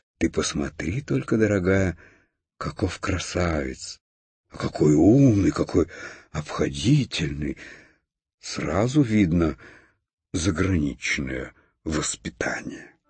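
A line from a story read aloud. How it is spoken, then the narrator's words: Delighted whisper. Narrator (Russian): Хрустальная ваза в восторге шептала своей подруге фарфоровой конфетнице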